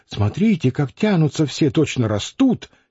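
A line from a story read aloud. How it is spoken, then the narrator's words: Soft. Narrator (Russian): тихо сказала она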